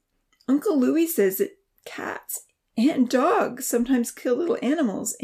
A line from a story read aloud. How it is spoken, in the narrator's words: Amy whimpered